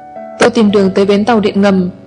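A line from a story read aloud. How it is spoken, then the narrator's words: Angry. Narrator (Vietnamese): Lương Duyệt tức giận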